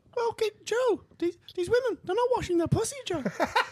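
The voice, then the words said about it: Imitates another person's voice. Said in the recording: “one of the only people I'd ever do is Jordan Peterson”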